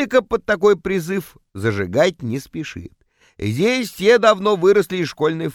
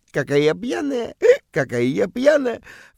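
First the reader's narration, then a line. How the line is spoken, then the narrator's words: Coquettish giggle. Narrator (Russian): кокетливо хихикает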